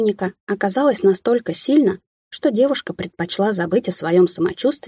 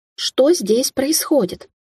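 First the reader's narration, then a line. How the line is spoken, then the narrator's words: Young woman exclaiming. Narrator (Russian): воскликнула девушка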